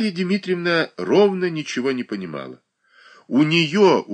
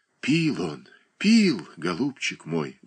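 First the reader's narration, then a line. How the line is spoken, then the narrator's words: Sighing. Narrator (Russian): вздохнула Марья Дмитриевна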